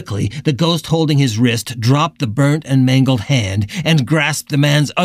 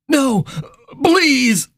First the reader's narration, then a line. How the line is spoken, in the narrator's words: the man cried